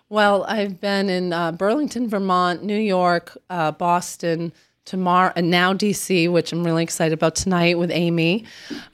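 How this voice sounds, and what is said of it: Hoarse, strained voice. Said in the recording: “apologize for my voice ... I'm losing it ... you're losing your voice”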